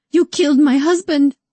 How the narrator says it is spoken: She sobbed

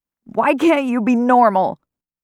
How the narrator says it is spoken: Theo yells

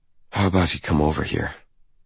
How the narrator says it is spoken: I keep my tone light, my voice husky, almost seductive

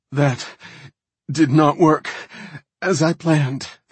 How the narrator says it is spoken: the other night elf gasped

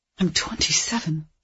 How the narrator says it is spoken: she whispered

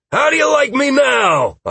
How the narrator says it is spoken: I yelled, masking my surprise

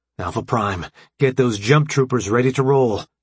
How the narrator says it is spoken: AJ barked

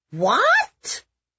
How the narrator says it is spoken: Felicity and Victoria shrieked in horror

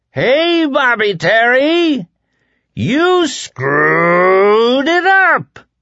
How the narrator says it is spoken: the dark man bellowed

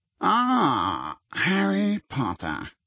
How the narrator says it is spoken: a cool voice said

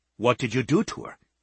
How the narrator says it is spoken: he asked in a tense voice

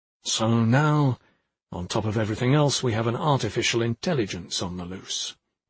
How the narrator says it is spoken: Boblensky muttered to himself

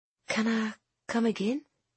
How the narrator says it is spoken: she whispered

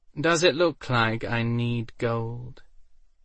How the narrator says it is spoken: Waldo sighed

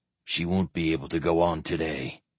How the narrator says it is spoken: the squire said quietly

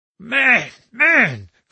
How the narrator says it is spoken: cried the little stranger in some uneasiness

